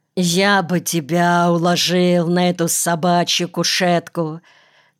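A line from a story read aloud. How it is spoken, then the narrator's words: Through gritted teeth. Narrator (Russian): цедил всякий раз сквозь зубы Никольский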